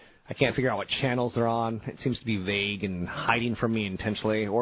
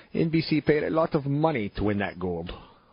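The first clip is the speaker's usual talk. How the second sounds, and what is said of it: Put-on Russian accent. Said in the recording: “I know you're saying that's a great Russian accent.”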